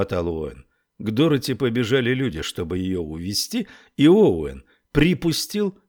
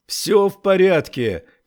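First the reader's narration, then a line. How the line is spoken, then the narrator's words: Shouting while running. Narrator (Russian): кричал он на бегу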